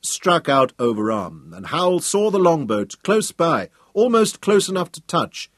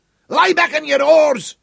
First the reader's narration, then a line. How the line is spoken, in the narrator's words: he shouted at his crew